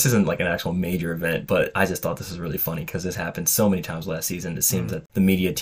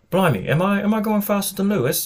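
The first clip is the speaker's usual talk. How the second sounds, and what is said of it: Weak attempt at British accent. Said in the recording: “that was my best British accent. I'm sorry. I'm not the accent guy.”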